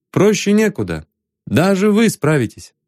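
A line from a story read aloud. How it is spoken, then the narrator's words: Plain. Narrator (Russian): ответил Ванзаров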